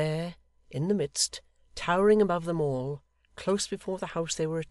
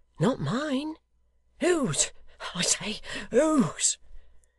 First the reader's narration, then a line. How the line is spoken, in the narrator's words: he cried, reeling back and looking wildly round